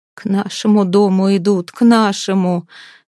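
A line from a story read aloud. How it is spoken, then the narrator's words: Quavering moan. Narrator (Russian): дребезжаще застонала Алисия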